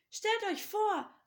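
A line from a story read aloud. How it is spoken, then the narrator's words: Called out. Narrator (German): rief er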